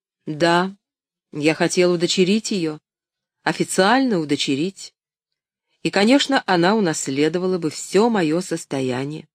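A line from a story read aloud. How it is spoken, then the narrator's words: Restrained, forced calm. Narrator (Russian): он сдержался и, как мог, спокойно продолжал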